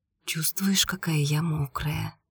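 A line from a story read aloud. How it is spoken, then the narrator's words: Whisper. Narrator (Russian): прошептала Ольга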